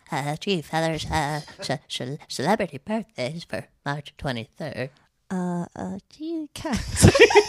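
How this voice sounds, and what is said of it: Butters character voice impression. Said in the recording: “You do a good Butters.”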